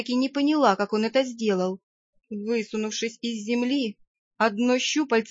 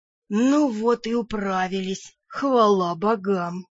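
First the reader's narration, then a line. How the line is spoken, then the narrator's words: Thundering giant voice. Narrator (Russian): прогремела возвышавшаяся надо мной гора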